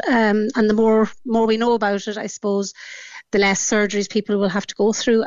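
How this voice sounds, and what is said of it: Irish Donegal accent. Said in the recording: “originally from Donegal. You can hear the accent in there”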